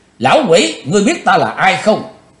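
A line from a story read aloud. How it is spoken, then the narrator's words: Cold shout. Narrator (Vietnamese): Chí Tôn lãnh đạm quát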